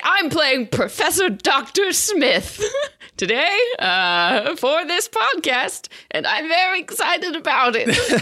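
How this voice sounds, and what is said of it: Put-on character accent. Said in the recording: “I am loving the accent work.”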